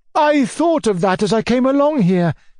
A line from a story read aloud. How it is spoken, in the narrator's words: cried my uncle